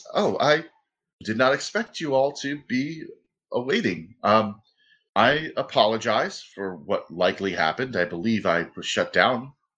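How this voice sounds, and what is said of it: Slightly less monotonous robotic voice. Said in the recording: “the inflection in his voice has gotten a little less monotonous”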